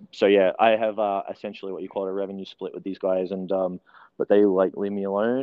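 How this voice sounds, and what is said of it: New Zealand accent. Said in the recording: “I was born in New Zealand. ... There's the accent.”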